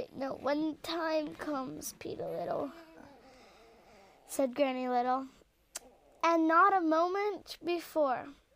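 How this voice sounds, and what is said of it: Old lady character voice. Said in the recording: “can you do an old lady voice?”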